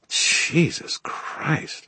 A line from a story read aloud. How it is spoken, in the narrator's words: Murphy muttered